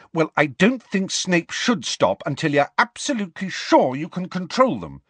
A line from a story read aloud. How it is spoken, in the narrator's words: said Hermione indignantly